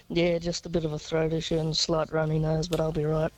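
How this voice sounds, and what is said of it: Deep, sick-sounding voice. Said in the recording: “how does your voice get deeper and deeper every single time we talk to you? ... I'm a bit sick right now”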